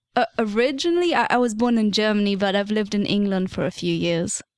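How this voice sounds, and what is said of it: Slightly British accent. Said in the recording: “your accent is slightly British.”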